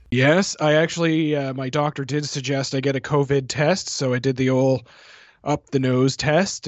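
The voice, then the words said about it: Slightly congested, sick-sounding voice. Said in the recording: “I have a bit of a cold”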